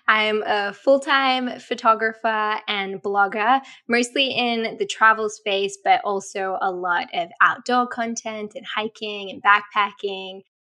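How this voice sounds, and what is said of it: Australian accent. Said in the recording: “I'm Australian, if you can't tell by my accent.”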